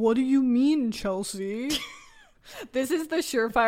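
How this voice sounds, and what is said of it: Usual voice. Nothing is said of it.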